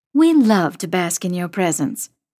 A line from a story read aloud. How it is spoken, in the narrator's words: Mom says dryly